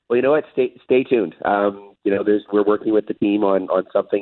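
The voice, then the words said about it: Hoarse, strained voice. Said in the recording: “I was yelling so hard, I lost my voice.”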